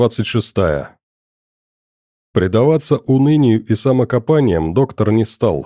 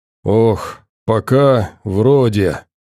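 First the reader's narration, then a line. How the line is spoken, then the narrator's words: Muffled distant voice. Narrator (Russian): донеслось глухо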